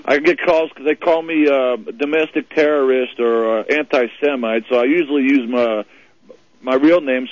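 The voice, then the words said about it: New York accent. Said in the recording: “Only one with a New York accent.”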